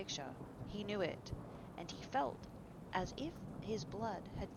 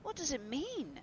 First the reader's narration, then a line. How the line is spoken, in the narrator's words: cried Hallward at last